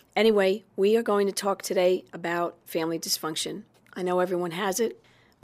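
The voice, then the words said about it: Husky, sick-sounding voice. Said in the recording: “I have my sexy voice on today because I caught some crud”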